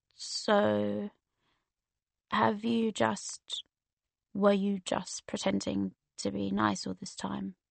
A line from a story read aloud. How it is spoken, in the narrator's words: he said, his voice so quiet and soft